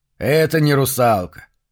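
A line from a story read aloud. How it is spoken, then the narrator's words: Snorting. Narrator (Russian): фыркнул человек, стоящий рядом со мной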